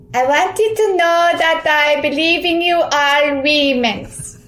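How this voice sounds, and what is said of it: Slovenian accent, Melania Trump-style. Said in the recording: “So it's Slovenian, so it's different than Russian, but here's my Melania Trump cousin accent”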